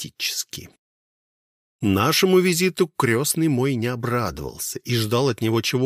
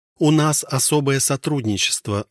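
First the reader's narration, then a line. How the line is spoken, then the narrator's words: Even tone. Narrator (Russian): ровным тоном произнесла Алиса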